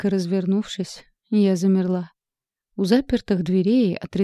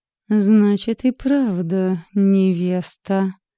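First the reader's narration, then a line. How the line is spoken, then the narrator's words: Through gritted teeth. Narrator (Russian): процедил он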